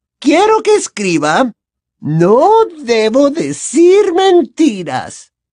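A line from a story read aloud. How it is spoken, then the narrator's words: Sweet honeyed voice. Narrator (Spanish): indicó con voz melosa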